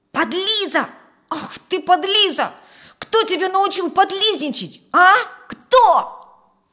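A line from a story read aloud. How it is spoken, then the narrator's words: Red-faced angry shout. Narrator (Russian): побагровев, закричал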